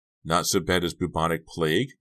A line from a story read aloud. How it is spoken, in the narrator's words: Maya exclaimed